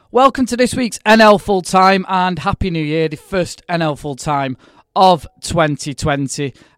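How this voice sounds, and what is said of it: Hoarse, slightly odd voice. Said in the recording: “we're all a bit hoarse and talking a bit weirder than normal because we had our NL Full Time belated Christmas drinks meetup on Saturday evening”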